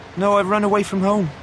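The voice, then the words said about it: Speaking quietly. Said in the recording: “The boy spoke quietly.”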